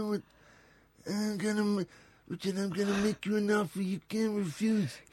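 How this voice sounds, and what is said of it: Imitation of the Godfather's voice. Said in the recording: “Do the voice. ... You do, Godfather.”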